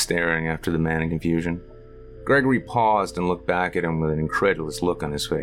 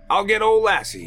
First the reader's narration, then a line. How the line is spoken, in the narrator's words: he shouted